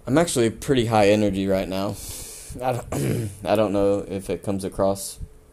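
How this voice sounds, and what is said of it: Hoarse, worn-out voice. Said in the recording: “losing my voice earlier today, so I don't know if my voice is”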